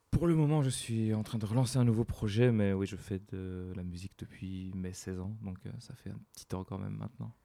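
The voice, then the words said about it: Belgian French accent. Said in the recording (French): “un belge ... Avec un bel accent”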